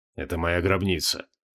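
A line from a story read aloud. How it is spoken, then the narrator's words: Quiet man. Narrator (Russian): тихо произнес креол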